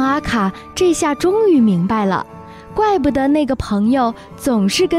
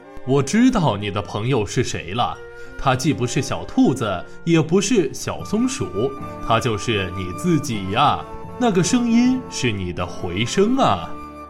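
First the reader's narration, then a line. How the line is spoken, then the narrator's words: Elephant father chuckling. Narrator (Chinese): 象爸爸呵呵笑了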